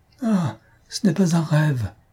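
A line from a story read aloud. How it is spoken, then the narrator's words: Exclaimed. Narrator (French): s'écria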